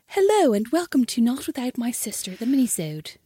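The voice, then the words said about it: Super posh voice. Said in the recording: “I don't like when you do like a super posh voice. ... That's what you do.”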